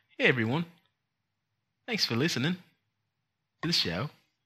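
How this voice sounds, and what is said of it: Put-on New Zealand accent. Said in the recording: “Can you do New Zealand? ... Here's a New Zealand.”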